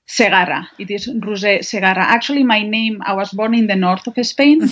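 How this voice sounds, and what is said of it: Spanish accent. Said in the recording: “You have a different accent than I do ... I'm from Spain. I was born and raised in Spain.”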